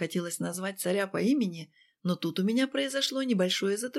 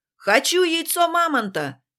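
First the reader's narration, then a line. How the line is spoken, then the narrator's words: Guest shouting. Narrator (Russian): крикнул один из гостей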